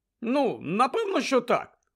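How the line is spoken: Exclaimed. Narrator (Ukrainian): вигукнув Джордж

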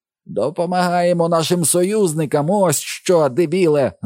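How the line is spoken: Shrieked. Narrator (Ukrainian): заверещав він

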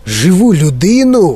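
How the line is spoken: Exclamation. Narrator (Ukrainian): вигукнув містер Вонка

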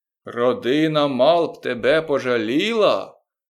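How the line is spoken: Shouted. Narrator (Ukrainian): закричав Балу

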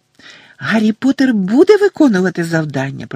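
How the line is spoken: Elf squeaking. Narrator (Ukrainian): пропищав ельф

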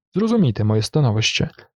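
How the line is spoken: Sad. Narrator (Ukrainian): сумно промовив Фетерер

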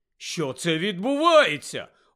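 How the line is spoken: Stunned exclamation. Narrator (Ukrainian): ошелешено вигукнув Рон

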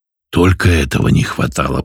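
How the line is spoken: Hiss. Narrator (Russian): прошипел я

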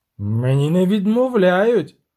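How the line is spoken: Prince's defiant shout. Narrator (Ukrainian): крикнув князь, суперечачи очевидним фактом

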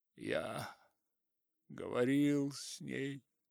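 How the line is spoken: Muttered after long silence. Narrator (Russian): пробормотал он после долгого молчания

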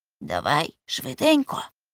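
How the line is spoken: Whisper. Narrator (Ukrainian): прошепотів Цибулька

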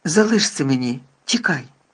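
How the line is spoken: Terrible growl. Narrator (Ukrainian): Пролунало жахливе гарчання

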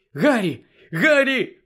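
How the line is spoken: Exclaimed. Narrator (Ukrainian): вигукнула Герміона

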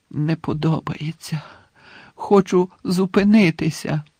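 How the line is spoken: Groan. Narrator (Ukrainian): простогнав Дамблдор

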